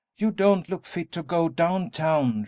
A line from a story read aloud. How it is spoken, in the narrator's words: she exclaimed